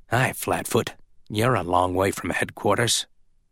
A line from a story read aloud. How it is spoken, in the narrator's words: he whispered